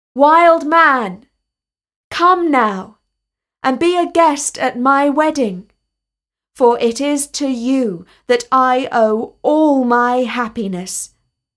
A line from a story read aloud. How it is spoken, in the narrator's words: He called out to him